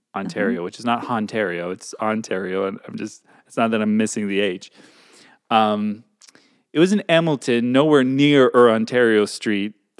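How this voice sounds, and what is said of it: Bad French-Canadian accent, dropped H's. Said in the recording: “Your French-Canadian accent is appalling. ... I'm just not pronouncing the H's.”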